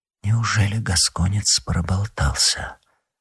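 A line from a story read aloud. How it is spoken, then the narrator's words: Whisper. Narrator (Russian): прошептала Анна Австрийская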